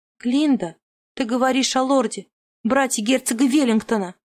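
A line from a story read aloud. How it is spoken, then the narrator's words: Hissed. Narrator (Russian): зашипела на нее Дженни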